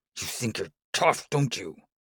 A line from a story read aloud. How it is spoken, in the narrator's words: Batar growls